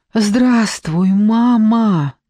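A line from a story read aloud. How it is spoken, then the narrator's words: Faint half-choked gasp. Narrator (Russian): еле выдохнула полузадушенная Офелия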